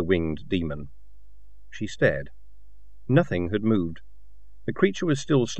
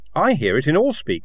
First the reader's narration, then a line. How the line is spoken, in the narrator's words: said Kin urgently